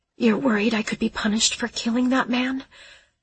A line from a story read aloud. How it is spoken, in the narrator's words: I panted against his hair